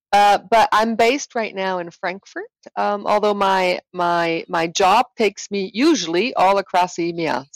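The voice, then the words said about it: Swiss accent with American influences. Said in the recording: “I've picked up on yours ... I'm Swiss for the most, with some American influences and parentage”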